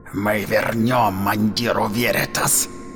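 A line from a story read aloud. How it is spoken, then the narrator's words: Vowed. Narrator (Russian): поклялся Хрисаор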